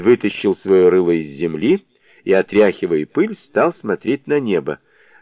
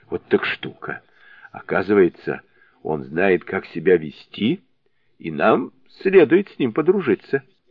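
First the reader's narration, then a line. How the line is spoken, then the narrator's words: Laughing, hoarse voice. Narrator (Russian): Засмеявшись, он сказал сиплым голосом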